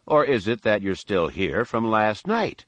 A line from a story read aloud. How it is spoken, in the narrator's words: Tomry went on, and he gave a chuckle